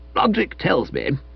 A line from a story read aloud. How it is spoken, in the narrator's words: proceeded, as sunny as if a crack of his had been greeted with laughter in court